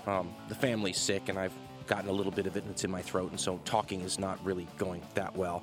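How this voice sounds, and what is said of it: Hoarse, rough voice. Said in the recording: “my voice sounds terrible ... I don't know if I'd call it sick ... Just, you know, hoarse.”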